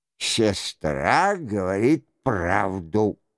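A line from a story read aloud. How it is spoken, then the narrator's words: Plain. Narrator (Russian): сказал герцог Майенский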